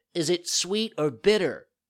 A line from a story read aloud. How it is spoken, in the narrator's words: Pinocchio asked in a whining voice